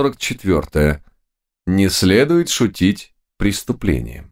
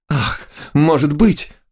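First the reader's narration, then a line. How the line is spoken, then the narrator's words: Despairing moan. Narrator (Russian): простонала она с отчаянием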